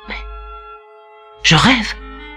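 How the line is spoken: Stammering. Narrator (French): balbutia-t-il

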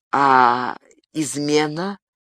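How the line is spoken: Strained, forced out. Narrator (Russian): выдавил из себя Габриэль

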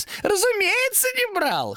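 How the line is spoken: Short laugh. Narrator (Russian): хохотнул демон

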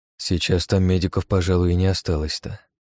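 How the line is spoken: Gloomy. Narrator (Russian): мрачно проговорил

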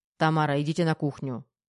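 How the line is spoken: Quieter angry command. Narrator (Russian): Чуть тише, но не менее зло, приказал полковник

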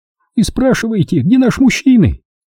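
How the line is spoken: Agitated repetition. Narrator (Russian): повторила она взволнованно

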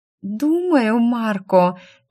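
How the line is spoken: Languid cooing. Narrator (Russian): томно проворковала она

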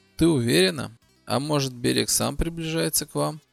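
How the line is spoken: Plain. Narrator (Russian): спросил

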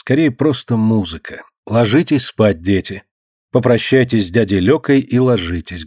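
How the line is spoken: Plain. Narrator (Russian): говорит она

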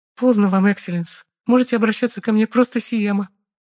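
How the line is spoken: Thin girlish squeak. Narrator (Russian): тоненько пропищала девица

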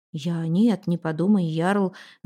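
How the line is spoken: Flustered mumble. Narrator (Russian): Забормотал Эндель, понимая, что сказал что-то не то

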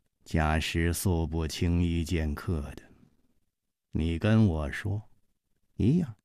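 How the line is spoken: Slow, measured. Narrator (Chinese): 冷秋魂缓缓地说

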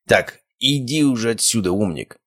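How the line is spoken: Growl. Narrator (Russian): рыкнул призрак

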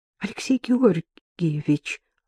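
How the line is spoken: Timid, faintly hopeful. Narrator (Russian): робко заикнулась Катерина со слабой надеждой, что свекор все-таки вмешается и все поставит на свои места

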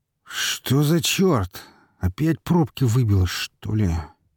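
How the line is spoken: Displeased drunken drawl. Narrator (Russian): недовольно протянул Степан хмельным голосом

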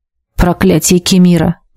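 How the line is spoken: Muttered. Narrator (Russian): пробормотала я

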